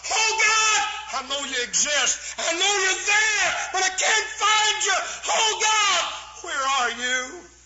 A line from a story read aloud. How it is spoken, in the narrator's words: cried out